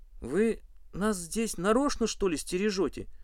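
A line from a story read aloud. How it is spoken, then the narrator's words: Strained, shaken. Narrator (Russian): выдавил из себя Валька, когда немного оправился от первого шока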